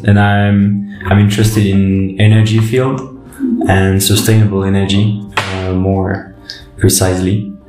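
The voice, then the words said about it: French accent in English. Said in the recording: “my poor English with my French accent”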